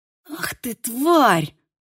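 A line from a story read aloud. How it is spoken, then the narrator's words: Hoarse rasp. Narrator (Russian): прохрипела Мия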